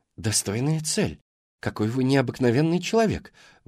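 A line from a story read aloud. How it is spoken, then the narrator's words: Admiring exclamation. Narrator (Russian): восхищенно воскликнула Карина Мерфи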